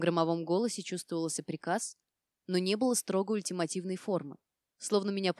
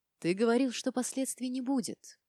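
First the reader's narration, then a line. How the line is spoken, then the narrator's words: Gentle tone, man. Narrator (Russian): ласковым тоном начал мужчина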